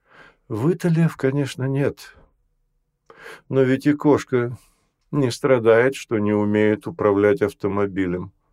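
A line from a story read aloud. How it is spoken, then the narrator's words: Gentle. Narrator (Russian): мягко сказал Гай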